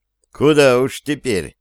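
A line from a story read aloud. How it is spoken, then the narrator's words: Sad wry chuckle. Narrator (Russian): печально усмехнулся Репин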